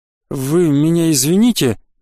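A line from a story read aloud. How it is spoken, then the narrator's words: Forced out, hesitant. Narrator (Russian): наконец выдавил из себя я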